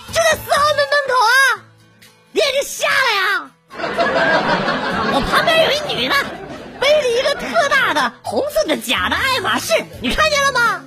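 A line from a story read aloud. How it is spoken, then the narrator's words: Very loud shouting, phone. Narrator (Chinese): 这姐们特别大声的对着电话嚷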